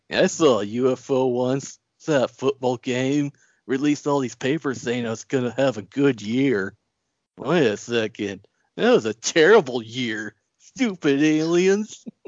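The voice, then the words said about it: Imitates another person's voice. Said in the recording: “my Chong impression”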